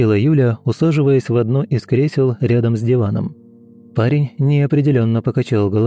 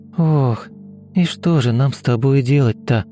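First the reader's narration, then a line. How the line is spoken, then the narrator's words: Girl's sigh. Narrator (Russian): вздохнула девушка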